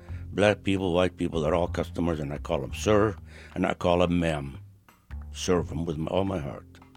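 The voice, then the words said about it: Non-local foreign accent. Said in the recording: “you can tell from my accent, I'm not from here”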